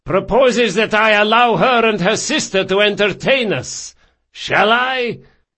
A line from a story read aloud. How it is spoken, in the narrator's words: he shouted